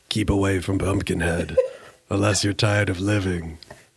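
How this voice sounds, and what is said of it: Spooky scary voice. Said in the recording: “scary voice ... you sound like a different person”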